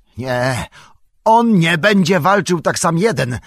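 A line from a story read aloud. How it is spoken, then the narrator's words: Sudden shout. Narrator (Polish): krzyknął niespodzianie Aragorn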